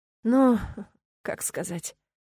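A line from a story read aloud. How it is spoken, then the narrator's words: Sighing reply. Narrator (Russian): вздохнула я в ответ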